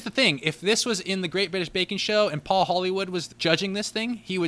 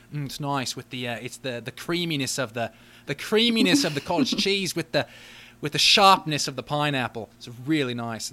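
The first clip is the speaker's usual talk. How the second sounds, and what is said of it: Failed Paul Hollywood impression, Australian-sounding. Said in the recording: “That would sound nothing like Paul Hollywood. That might have even been an Australian accent.”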